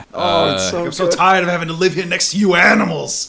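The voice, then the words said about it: Jersey accent, disgruntled character voice. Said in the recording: “Carl is like their disgruntled next door neighbor. Like, what is it, like a Jersey accent?”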